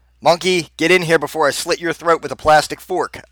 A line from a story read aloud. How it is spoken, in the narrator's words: I yell out